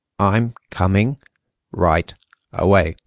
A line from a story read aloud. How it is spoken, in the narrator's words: said Gregor slowly and deliberately